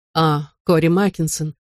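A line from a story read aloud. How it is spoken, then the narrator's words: Listless voice. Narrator (Russian): проговорила вялым голосом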